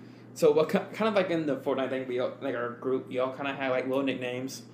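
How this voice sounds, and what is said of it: Usual voice. Nothing is said of it.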